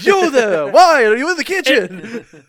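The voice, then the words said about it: Scolding voice, Japanese-Italian accent. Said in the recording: “him just scolding the shit out of Josuke ... combined with the Japanese-Italian accent, it's just, mwah, chef's kiss. Perfect.”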